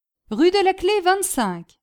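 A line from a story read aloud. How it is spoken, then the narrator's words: Group exclaiming. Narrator (French): s'écrièrent les Polonais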